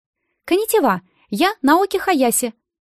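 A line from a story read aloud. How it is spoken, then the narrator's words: Chirpy voice. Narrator (Russian): сказала она щебечущим голосом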